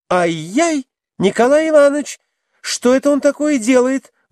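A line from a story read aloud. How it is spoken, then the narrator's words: Shriek while struggling. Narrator (Russian): взвизгнула она, вырываясь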